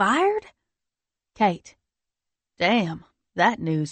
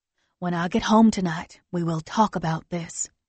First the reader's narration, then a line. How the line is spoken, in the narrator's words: she whispers in my ear